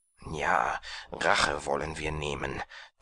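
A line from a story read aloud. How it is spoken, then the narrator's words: Hissing to each other. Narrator (German): zischelten sie einander zu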